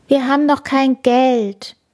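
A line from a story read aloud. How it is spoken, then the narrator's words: Groaning. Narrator (German): stöhnte Kaspar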